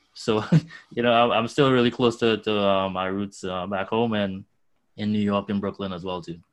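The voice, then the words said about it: Strong Trinidadian accent. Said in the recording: “if you can hear my accent, it sounds like I just got here yesterday”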